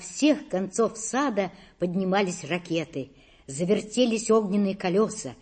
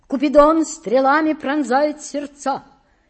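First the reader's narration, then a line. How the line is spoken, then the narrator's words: Shout. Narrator (Russian): крикнул он Петру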